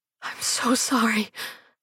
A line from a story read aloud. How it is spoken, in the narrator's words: whispered through gasping sobs